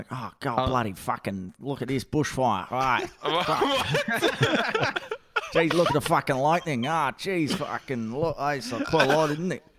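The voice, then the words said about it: Exaggerated stereotypical Australian accent. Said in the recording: “She is so Australian as well. It's like the typical Steve Irwin Australian accent.”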